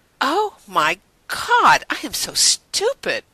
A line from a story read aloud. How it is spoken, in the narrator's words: Rodney exclaimed